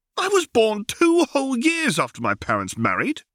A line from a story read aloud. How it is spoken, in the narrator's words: cried Harry